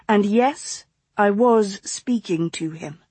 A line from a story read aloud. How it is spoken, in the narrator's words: she said evenly